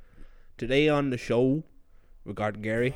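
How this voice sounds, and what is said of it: Bad put-on American accent. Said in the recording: “worst impression of Dr. Phil of all time ... straight up garbage. That was terrible ... put on a terrible American accent”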